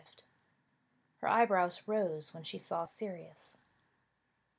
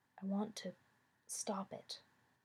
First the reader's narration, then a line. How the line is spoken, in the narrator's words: he whispered